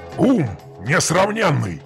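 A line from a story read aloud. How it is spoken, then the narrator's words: Growl. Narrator (Russian): прорычал хан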